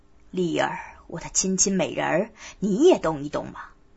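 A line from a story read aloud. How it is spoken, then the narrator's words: Laughing. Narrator (Chinese): 笑道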